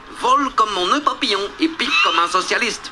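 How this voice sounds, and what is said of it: Put-on Asian accent. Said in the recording (French): “j'ai pris cet accent asiatique totalement proscrit en 2023”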